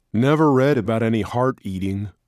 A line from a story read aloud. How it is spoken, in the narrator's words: Rick said